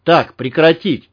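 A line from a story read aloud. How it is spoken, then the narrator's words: Bark. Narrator (Russian): рявкнул Малахов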